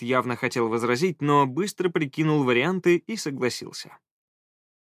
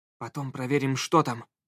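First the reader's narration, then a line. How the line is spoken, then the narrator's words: Whispered. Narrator (Russian): шепнул Скай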